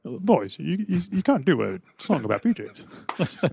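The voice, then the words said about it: Imitates another person's voice. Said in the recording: “your George Martin impression”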